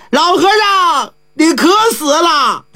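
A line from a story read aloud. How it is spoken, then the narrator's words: Wailing, crying out. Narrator (Chinese): 济公哭，口中喊着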